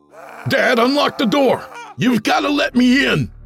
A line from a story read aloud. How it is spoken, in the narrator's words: More screaming